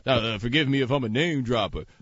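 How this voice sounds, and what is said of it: Oafish imitation of another person's voice. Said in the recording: “What was that voice you just did? That sounded like someone a much more oafish version of me.”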